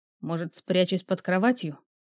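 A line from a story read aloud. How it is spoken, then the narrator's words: Quiet growl. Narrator (Russian): Я тихо зарычал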